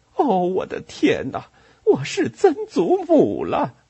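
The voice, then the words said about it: Shocked exclaiming voice. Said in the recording (Chinese): “用震惊的声音说”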